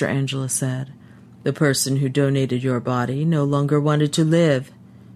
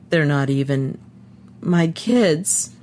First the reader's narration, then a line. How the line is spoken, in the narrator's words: he said brokenly